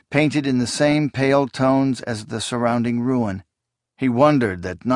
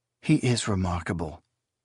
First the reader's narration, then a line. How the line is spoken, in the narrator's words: Esmanet murmured